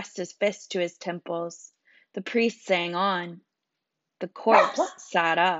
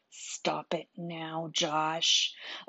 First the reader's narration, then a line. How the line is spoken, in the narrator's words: whispered in his ear